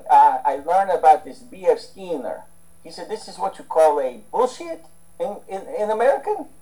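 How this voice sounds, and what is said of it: Imitated Russian accent. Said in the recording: “In his Russian accent”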